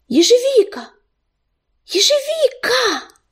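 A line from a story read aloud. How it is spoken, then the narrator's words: Excited calling. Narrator (Russian): Кто-то взволнованно окликал его по имени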